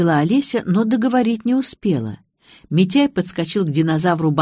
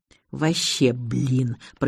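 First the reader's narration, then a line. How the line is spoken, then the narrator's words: Hoarse wheeze. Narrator (Russian): просипел Митяй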